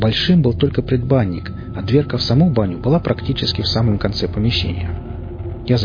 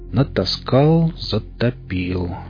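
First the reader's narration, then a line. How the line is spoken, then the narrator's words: Slow. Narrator (Russian): медленно произнес я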